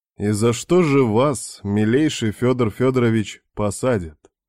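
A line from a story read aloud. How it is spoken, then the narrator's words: Lazy question. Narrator (Russian): лениво спросил куратор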